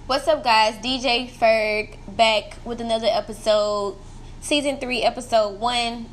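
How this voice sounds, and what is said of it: Stuffy, congested nasal voice. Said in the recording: “I'm sorry for how I sound. I think I sound really weird, but my nose is like really, really stuffy. So I think I sound weird. I probably still sound the same. I'm just dramatic.”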